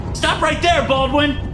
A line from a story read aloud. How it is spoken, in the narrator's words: Lohan shouts at me